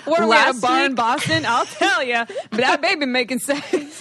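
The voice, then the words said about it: Unconvincing put-on regional accent. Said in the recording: “I don't know what kind of accent that was. ... You were so Ted Lasso right now. ... That is definitely not a New England accent.”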